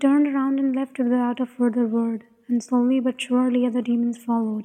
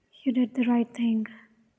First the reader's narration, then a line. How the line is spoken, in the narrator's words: he said quietly